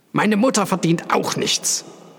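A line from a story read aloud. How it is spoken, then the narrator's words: Angry. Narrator (German): sagte Echnaton zornig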